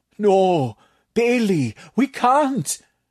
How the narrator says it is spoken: Tatak moaned

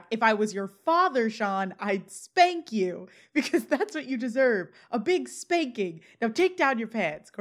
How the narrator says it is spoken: Corey yells back

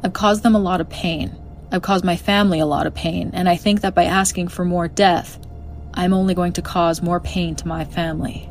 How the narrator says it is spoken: Jody calmly responded by saying

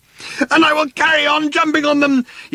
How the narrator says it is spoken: yelled Arthur, still running

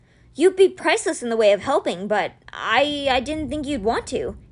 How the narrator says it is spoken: he stammered

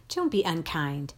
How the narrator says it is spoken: told sharply

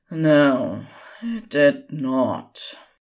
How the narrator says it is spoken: They eyed each other warily for a few moments before sighed and said

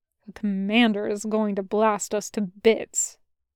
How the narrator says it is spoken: muttered

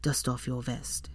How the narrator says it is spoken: More quietly, he said

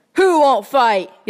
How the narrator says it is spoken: yelled Cecil, his face flaming with antagonism

